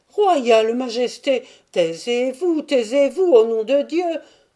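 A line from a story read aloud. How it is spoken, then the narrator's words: Exclaimed. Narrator (French): s'écria Yankel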